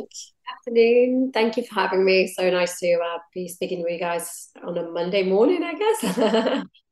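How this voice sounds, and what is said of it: Husky, hoarse recovering voice. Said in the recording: “my voice doesn't always sound like this ... I'm not putting up a sexy voice, but this is literally me recovering ... picked up as a cold or something ... my voice is coming back slowly”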